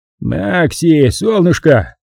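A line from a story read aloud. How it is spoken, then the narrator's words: Booming through chest loudspeaker. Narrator (Russian): прогремел Хатченс из громкоговорителя, встроенного в его грудь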